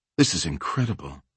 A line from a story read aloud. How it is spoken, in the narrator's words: Lisanne said, her voice hushed as if she were in church